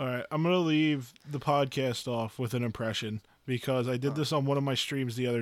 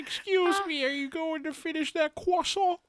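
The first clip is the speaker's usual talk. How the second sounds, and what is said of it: Uncanny impression of Carl Wheezer cartoon voice. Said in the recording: “I'm going to do an impression of Carl Weezer from Jimmy Neutron ... it's very uncanny”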